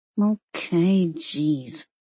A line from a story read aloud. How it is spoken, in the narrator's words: she mumbled